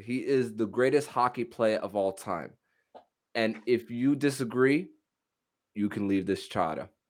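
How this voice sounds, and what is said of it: Put-on Boston accent. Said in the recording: “You sound like you're from there. ... I tried doing my best Bostonian accent. ... That's pretty good.”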